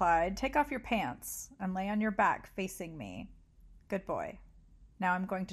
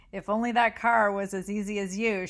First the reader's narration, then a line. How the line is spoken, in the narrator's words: she laughed